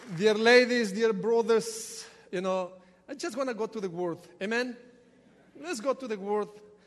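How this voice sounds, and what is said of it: Ecuadorian Spanish accent. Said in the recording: “You will get used to my accent ... from Ecuador, there is nothing that I can do with this accent”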